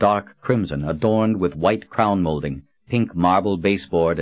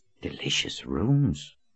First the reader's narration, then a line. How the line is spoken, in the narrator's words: Kara whispered